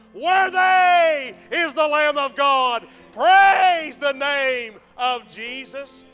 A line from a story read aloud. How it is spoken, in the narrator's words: She shouts to a bystander